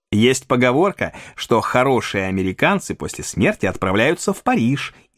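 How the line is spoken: Giggling pronouncement. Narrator (Russian): изрек хихикая сэр Томас

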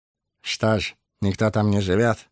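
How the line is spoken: Plain question. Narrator (Russian): спросил Ларт

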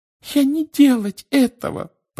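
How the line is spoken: Frightened squeak. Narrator (Russian): пропищала она, вращая от страха глазами

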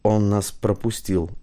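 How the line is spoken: Quiet. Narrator (Russian): тихо сказал Стас

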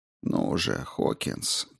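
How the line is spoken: Quiet. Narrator (Russian): тихо проговорил он

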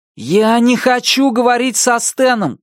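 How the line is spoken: Shout. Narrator (Russian): крикнул он

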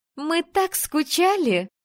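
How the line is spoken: Squealed. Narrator (Russian): взвизгнула Надя

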